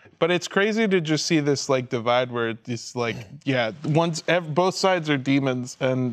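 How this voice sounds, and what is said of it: Usual voice. Nothing is said of it.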